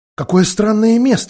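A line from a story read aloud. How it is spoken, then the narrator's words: Exclamation. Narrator (Russian): воскликнула Люси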